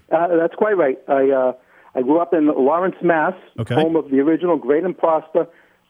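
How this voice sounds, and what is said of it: New England accent. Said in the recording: “You sound like a New Englander.”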